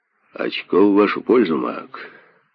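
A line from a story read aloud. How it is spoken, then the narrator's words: Loud booming bass. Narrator (Russian): Громко басил Уокер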